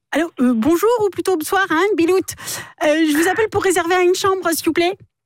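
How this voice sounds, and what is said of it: Put-on northern French accent. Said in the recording (French): “Accent du Nord.”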